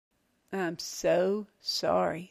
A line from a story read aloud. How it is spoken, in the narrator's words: Sonny muttered sarcastically